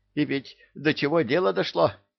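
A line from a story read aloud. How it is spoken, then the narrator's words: Rapid chatter, little girl. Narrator (Russian): продолжала тараторить малашка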